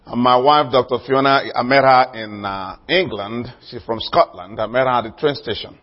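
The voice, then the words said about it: Nigerian-accented English. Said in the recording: “Originally, I'm from Nigeria, in case you wonder the accent”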